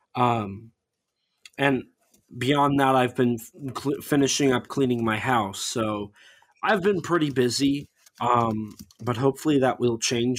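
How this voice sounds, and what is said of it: Scratchy, strained voice. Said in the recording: “my voice is going to be like scratchy throughout this entire episode ... I've been screaming for 40 minutes”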